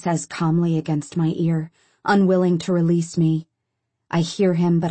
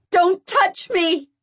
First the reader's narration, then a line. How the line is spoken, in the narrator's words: I yell at the top of my lungs